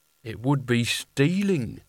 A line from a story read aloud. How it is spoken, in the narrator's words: said Nigel slowly